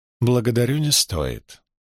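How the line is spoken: Perfectly calm reply. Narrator (Russian): совершенно спокойно ответила Айлил

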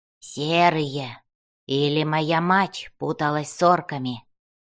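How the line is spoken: Grumbling. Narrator (Russian): Буркнул он

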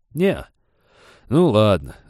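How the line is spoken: Disappointed sigh. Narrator (Russian): разочарованно вздохнул рыбинспектор

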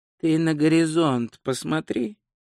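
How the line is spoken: Flat toneless voice. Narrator (Russian): бесцветным голосом посоветовал Ринсвинд

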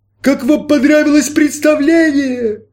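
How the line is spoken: Shouting. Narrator (Russian): крикнул Рансар

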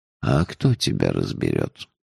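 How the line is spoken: Sighing. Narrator (Russian): вздохнул он

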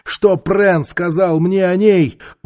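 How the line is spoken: Shouted. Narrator (Russian): Он крикнул стражникам

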